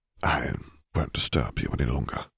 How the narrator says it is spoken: he murmured

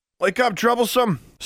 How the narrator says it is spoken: someone yelled at her

